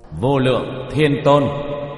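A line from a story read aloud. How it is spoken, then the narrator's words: Raised voice. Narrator (Vietnamese): Tiểu Thất cất cao giọng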